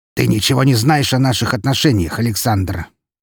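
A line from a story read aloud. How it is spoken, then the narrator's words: Sharp. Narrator (Russian): резко произнес он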